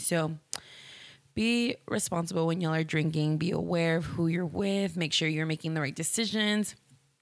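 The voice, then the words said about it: Slightly raspy voice. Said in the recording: “I sound a little raspy.”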